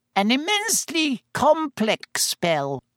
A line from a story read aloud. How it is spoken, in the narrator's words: he said squeakily